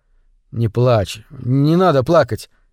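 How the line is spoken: Hesitant speech. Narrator (Russian): неуверенно заговорил Джо

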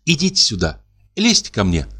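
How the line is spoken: Plain. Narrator (Russian): сказала Надя

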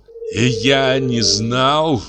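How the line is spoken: Moan. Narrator (Russian): простонал он

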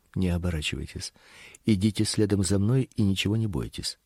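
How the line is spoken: Woman whispering, fluent English. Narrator (Russian): женский голос прошептал на отличном английском

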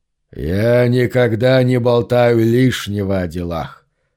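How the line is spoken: Menacing grinning voice. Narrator (Russian): усмехнулся он широко, грозно скаля свои клыки

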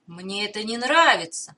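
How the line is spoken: Muttered. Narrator (Russian): пробормотал Сальваторе

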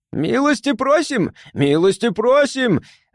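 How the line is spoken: Yelled. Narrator (Russian): заорал он

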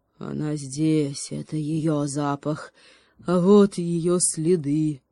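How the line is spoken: Growl skyward. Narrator (Russian): прорычал в небо

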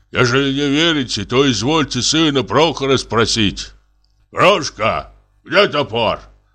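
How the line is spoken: Sudden rough question. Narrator (Russian): Вдруг спросил он грубым голосом

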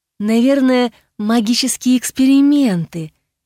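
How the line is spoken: Soft female voice. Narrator (Russian): мягко сказала женщина

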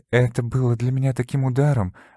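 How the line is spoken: Sigh. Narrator (Russian): вздохнула мисс Карнаби

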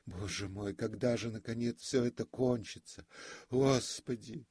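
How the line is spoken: Sobbing, crying girlish voice. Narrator (Russian): всхлипнул, как девочка, и спросил голосом плачущей девочки

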